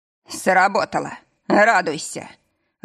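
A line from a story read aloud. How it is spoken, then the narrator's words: Growl. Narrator (Russian): Рыкнул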